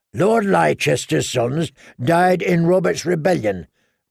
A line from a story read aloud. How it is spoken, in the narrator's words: grumbled Lem